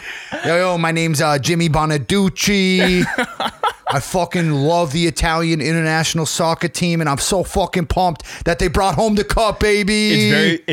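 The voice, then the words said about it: Put-on Jersey Shore Guido accent. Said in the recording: “you for sure do a better Jersey Shore Guido accent or North Jersey Guido, whichever one that is, probably both, than I do.”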